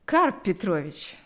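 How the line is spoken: Plain. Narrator (Russian): сказал он

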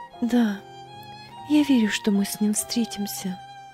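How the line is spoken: Quiet, consoling. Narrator (Russian): тихо произнесла Фрида в утешение себе и сыну

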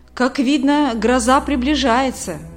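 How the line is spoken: Plain. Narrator (Russian): сказал Николай

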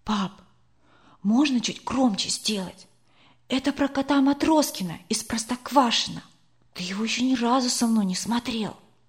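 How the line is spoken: Whispered request. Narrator (Russian): Сашка шепотом попросил

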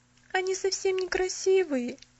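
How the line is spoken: Sobbing. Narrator (Russian): сказала она и всхлипнула

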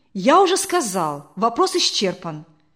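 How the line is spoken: Angry, gloomy reply. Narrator (Russian): сердито и хмуро ответил Матюнин

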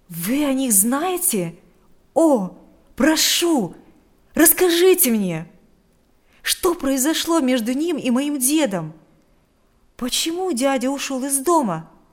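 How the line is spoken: Impatient exclamation. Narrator (Russian): воскликнул Адам с нетерпением

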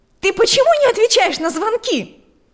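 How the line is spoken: Shouting. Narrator (Russian): закричала она прямо с порога

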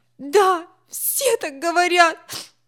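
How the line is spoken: Sobbing. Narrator (Russian): всхлипнул Гарри

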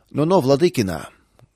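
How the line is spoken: Rude interruption by elder. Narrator (Russian): грубо прервал старший

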